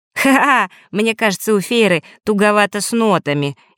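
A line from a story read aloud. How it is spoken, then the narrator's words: Snide remark. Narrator (Russian): ехидно произнес Фэш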